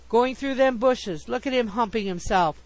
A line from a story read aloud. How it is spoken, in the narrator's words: one cried